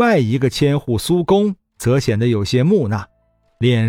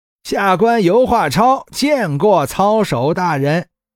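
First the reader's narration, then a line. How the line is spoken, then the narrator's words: Loud ceremonial announcement. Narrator (Chinese): 跪伏在地上，大声唱道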